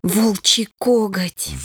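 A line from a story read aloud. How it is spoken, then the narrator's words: Breathed out. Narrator (Russian): выдохнула Лия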